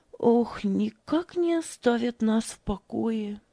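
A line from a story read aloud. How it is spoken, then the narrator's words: Sighing woman. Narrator (Russian): вздохнула она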